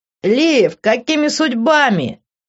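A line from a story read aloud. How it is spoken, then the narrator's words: Joyful shout. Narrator (Russian): радостно крикнул Нейт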